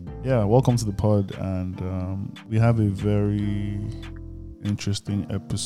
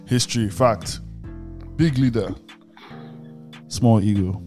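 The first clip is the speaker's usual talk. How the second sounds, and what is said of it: Caveman voice, broken speech. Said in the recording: “talk like a caveman”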